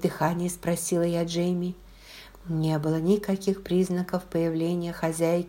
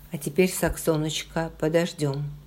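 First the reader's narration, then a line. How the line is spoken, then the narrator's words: Plain. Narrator (Russian): сказал он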